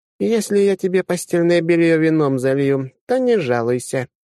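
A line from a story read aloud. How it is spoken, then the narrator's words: Snide, sarcastic. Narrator (Russian): ехидно изрекла гостья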